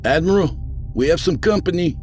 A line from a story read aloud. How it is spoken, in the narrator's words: the first mate called out